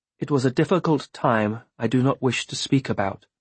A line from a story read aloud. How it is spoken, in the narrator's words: she said stiffly